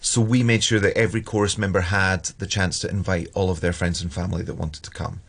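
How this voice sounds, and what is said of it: Scottish accent. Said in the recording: “I hear a nice Scottish accent here”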